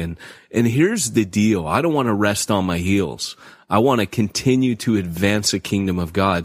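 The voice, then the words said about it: Slightly congested voice from a cold. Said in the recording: “I'm sick. You could probably hear it in my voice a little bit. But, I've got a bit of a cold.”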